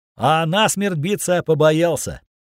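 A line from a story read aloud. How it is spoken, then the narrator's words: Sarcastic shout. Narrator (Russian): язвительно выкрикнул Синий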